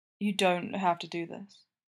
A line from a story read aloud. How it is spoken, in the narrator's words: he says a little sadly